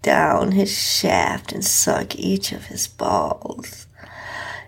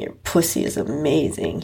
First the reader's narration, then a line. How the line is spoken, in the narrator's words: he groaned out